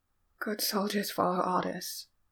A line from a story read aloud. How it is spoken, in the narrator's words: said the dying man, words slurred but no less frantic